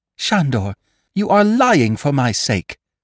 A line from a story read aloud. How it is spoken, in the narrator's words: cried the girl